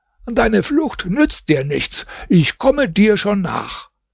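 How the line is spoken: Calling out after. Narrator (German): rief ihm zu

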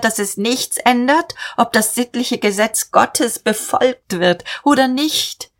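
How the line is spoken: Called out. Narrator (German): rief

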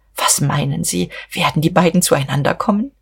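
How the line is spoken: Old man whispering. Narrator (German): Der Alte wisperte

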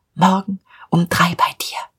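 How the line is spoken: Whispered. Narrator (German): flüsterte ihm zu

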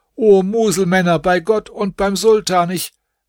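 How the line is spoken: Shouting. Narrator (German): Er schrie auch

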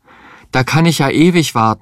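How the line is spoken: Desperate cry. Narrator (German): rief er verzweifelt

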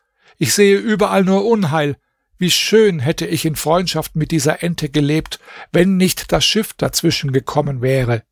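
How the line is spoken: Exclaiming. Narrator (German): rief aus

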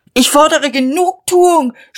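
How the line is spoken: Scream. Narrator (German): schrie er

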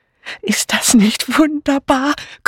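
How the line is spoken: Breathless female voice. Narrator (German): keuchte eine weibliche Stimme

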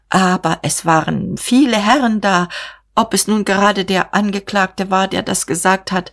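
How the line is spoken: Stammering. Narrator (German): stammelte

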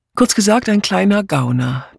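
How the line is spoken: Dry remark. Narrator (German): bemerkte Miss Blacklock trocken

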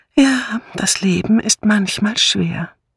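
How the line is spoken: Sighing murmur. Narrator (German): nickte sie seufzend und murmelte

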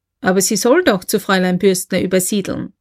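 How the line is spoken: Plain. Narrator (German): sagte K

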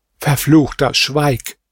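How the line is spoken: Princess exclaiming. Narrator (German): rief die Prinzessin aus

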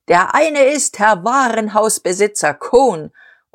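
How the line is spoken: Roaring. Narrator (German): Dieterich und er brüllte

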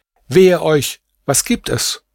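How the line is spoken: Calling out. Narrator (German): rief sie

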